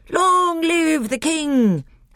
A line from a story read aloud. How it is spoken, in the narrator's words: they all cried